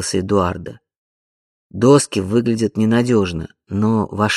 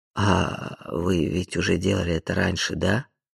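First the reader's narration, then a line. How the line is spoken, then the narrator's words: Uncertain query. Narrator (Russian): Неуверенно уточнил Тедди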